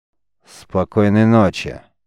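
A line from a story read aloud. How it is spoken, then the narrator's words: Angry grumble. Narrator (Russian): сердито буркнул Гервахово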